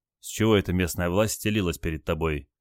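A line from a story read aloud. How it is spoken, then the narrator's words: Quiet question. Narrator (Russian): тихо спросил Олег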